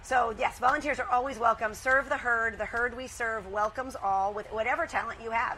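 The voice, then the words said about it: Hoarse voice. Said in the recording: “my voice is kind of hoarse”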